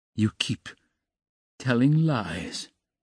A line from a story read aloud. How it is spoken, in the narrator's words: he said slowly and weakly